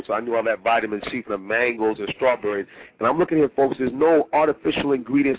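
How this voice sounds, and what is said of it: Voice with a slight cold. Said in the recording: “as you can tell by my voice, I have a little bit of a cold”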